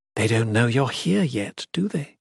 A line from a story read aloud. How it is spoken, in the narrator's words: whispered